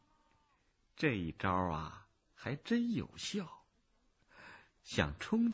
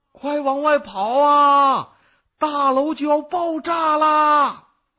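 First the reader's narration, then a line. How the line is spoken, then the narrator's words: Panicked shout. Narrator (Chinese): 门卫大惊失措的，一面挤一面大喊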